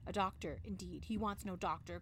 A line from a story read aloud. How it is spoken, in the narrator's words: cried the angry mistress